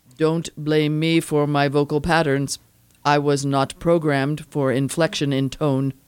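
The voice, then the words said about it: Flat monotone robotic voice. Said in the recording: “I recognized your monotone voice.”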